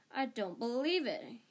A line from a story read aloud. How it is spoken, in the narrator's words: he said hoarsely